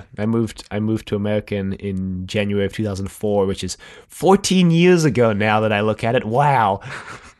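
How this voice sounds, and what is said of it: Blended South African and American accent. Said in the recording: “my accent is, I mean, it's not like strictly South African. It's like this weird kind of blend between South African and American. And I get Australian a lot when people guess”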